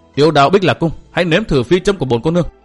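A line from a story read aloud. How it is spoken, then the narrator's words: Loud shout. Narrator (Vietnamese): quát lớn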